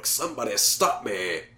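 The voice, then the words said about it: Jim Carrey impression as The Mask. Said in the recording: “imitating him as The Mask”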